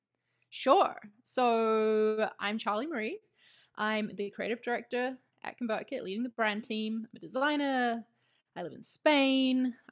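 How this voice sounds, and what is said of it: New Zealand accent mixed with British. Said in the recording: “I'm from New Zealand, so that's the accent you're hearing. But I lived for about 4.5 years in the UK, in London. So the accent's kind of a mix now.”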